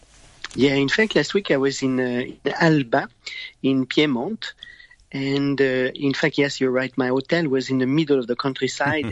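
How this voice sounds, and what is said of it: Sleepy early-morning voice. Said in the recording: “You can hear in my voice that is a little bit early.”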